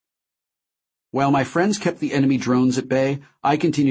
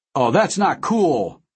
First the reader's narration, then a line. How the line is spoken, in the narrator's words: Deal shouted